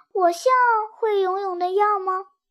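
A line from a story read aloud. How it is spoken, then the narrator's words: Glum, near tears. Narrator (Chinese): 红心杰克哭丧着脸说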